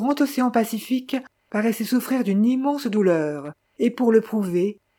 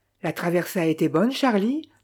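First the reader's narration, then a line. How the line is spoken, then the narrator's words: Plain. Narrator (French): demanda Victor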